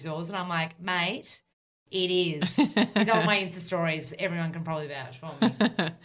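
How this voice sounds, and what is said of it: Strong broad Australian accent. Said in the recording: “very Aussie ... super Aussie ... I'm the resident bogan ... the most bogan of the health world ... your accent's like that ... I've learnt my accent from you”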